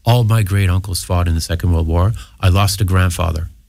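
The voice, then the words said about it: American accent from Maine. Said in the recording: “you can hear from my accent, I was born in the United States. I was born in Maine.”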